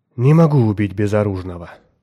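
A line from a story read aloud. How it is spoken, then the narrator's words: Sighing. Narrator (Russian): вздохнул он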